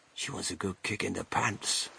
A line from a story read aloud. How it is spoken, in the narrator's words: whispered Grandpa Joe